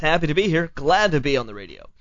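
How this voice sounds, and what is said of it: Radio announcer voice. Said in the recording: “You just got to stay in announcer voice for a little bit. ... I'm definitely going to stay in announcer voice.”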